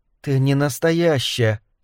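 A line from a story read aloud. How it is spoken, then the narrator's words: Whispering again. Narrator (Russian): снова прошептала Вик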